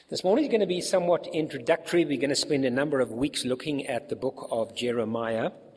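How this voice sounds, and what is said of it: Congested, slightly rough voice. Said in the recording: “I've got a bit of a cold, so I do apologize for my voice.”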